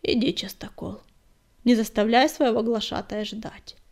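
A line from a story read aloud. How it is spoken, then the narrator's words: Calm. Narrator (Russian): спокойно сказал звездоцап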